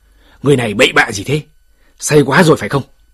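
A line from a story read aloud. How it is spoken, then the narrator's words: Angry shout. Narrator (Vietnamese): Tấn Vũ Đế nổi giận quát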